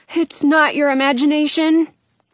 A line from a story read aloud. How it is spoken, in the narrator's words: Jonah says